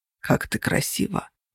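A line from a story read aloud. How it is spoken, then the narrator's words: Whisper. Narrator (Russian): прошептал Тейт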